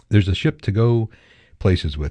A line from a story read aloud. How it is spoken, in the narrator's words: he said